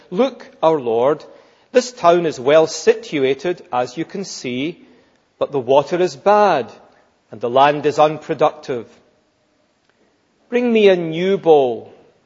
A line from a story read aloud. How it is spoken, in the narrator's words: he said